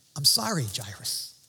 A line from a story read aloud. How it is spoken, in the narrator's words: he said